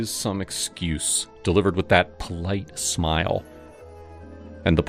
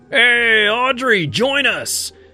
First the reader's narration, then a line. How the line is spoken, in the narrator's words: Derek would yell